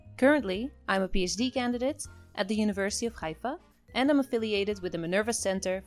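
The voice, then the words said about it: Israeli-Dutch accent. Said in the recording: “half Israeli and half Dutch, hence my funny accent.”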